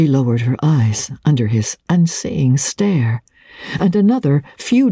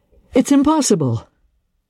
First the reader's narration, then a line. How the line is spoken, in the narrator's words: he exclaimed